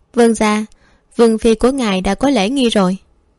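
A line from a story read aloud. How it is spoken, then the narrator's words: Smiling. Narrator (Vietnamese): Thất Thất mỉm cười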